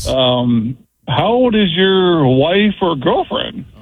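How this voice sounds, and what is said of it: Playful lilting tone. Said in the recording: “the tone of his voice was more disturbing than the question itself, too. That little playful lilt.”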